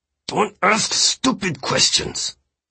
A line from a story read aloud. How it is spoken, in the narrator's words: he said through his teeth